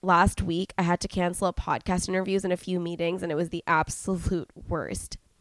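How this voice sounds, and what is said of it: Voice affected by a cold. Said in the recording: “excuse my voice ... I'm down with a super gnarly cold”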